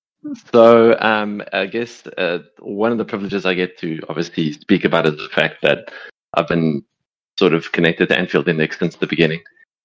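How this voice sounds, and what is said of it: Voice in terrible, strained shape. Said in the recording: “you're probably not recognizing my voice because of, like, my voice is just in terrible shape”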